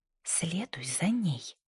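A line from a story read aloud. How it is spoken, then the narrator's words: Quiet command. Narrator (Russian): тихо приказала Джинни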